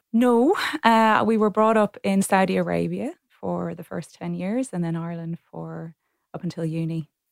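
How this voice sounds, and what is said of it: Irish accent. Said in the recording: “I detect an accent there. Sounds Irish.”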